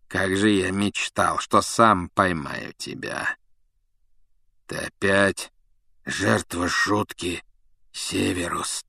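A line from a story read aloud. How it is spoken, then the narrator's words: Hoarse. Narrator (Russian): прохрипел Блэк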